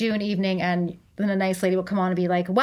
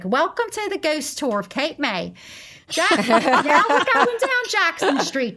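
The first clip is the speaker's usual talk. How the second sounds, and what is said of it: Put-on posh British-style accent. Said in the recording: “that accent is like the Queen's English”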